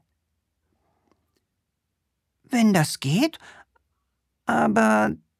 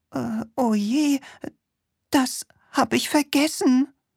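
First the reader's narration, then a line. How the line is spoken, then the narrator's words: Witch stammering. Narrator (German): stammelte die Hexe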